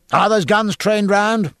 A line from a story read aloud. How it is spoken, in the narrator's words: cried Jack